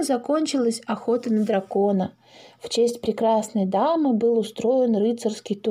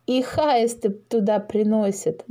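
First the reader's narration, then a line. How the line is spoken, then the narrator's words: Adding, then laughing. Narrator (Russian): добавил Паша и засмеялся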